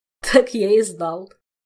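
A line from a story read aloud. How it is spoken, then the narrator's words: Good-natured chuckle. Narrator (Russian): беззлобно хохотнул Толик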